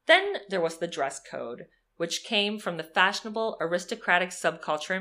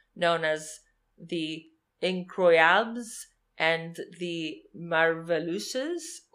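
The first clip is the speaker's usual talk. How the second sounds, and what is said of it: Exaggerated French accent. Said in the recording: “what's the offensive French accent I could put on it to make it sound like I'm saying it right?”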